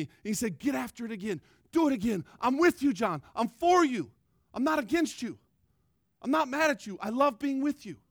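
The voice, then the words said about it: Loud, passionate yelling. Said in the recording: “Enough yelling. Sorry. I'm not yelling at you. ... I am passionate”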